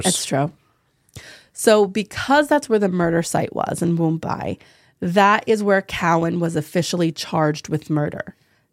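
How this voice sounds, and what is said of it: New Jersey accent. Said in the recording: “I have a New Jersey accent”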